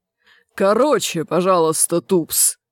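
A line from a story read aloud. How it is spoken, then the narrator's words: Growled. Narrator (Russian): прорычал Чудакулли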